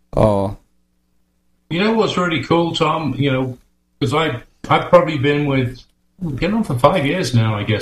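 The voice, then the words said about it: British accent. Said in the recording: “I noticed a little bit of accent there. ... I'm still very much a Brit.”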